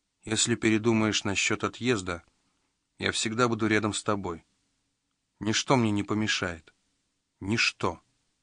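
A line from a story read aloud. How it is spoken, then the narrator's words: Quiet, discreet speech. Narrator (Russian): тихо проговорил, чтобы никто не услышал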